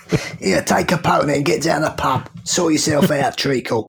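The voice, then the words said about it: Put-on London accent. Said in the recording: “my London accent”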